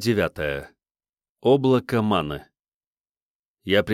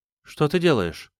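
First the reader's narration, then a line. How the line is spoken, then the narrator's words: Plain. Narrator (Russian): спросила она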